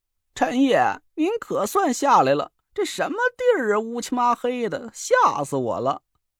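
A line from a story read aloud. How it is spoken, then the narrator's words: Frightened, on the verge of tears. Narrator (Chinese): 蒋亮 声音里啊都带着哭腔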